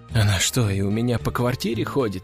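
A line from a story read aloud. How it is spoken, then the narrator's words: Whispering. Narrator (Russian): прошептала Валерия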